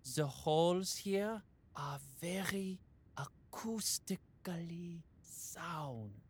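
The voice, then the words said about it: Whispering. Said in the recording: “we're whispering”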